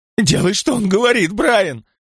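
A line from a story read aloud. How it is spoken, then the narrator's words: Sudden furious spitting shout. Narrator (Russian): Вдруг яростно закричала она, брызгая слюной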